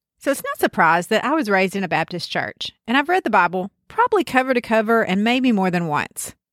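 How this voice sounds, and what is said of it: Deep South American accent. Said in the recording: “you can tell from this accent that it's me... you can tell from my accent that I'm from the Deep South”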